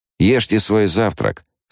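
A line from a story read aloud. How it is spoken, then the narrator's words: Stern. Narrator (Russian): строго сказала она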